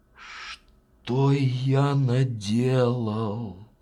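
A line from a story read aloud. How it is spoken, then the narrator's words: Sigh. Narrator (Russian): вздохнул он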